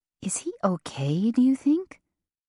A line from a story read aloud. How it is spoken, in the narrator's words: Eddie whispered